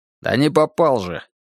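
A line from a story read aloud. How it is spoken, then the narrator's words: Grumbling. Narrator (Russian): проворчал Казачок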